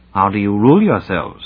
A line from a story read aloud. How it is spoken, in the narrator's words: asked Ransom